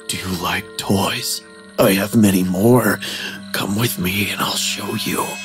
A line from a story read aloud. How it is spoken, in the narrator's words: He whispered